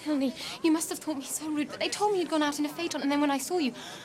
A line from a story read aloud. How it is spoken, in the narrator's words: I begged Mr